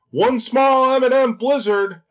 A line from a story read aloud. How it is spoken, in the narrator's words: at the top of her lungs